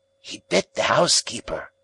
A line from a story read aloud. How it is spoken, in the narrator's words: said he in a hoarse whisper